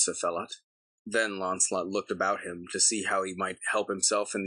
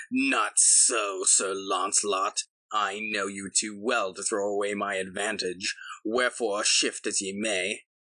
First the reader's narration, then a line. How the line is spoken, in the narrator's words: But Sir Phelot laughed mockingly and said